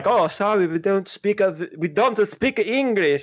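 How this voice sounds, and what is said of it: Put-on foreign accent. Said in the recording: “I don't know what accent that was”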